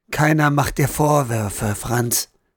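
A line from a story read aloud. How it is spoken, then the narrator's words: Gentle soft voice. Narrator (German): sagte Frau Bauer so sanft wie möglich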